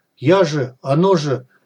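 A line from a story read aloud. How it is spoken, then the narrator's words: Confused mutter. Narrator (Russian): растерянно пробормотал сталкер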